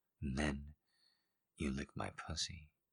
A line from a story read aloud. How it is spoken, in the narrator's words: she murmured, biting her lip